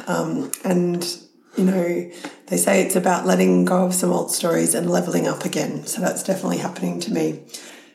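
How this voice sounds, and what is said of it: Sick, slightly congested voice. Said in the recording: “I've been sick, as you can hear in my voice. It's a bit of a cold.”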